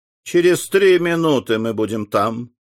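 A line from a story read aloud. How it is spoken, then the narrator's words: Calm objection. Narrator (Russian): спокойно возразил ему президент Барбикен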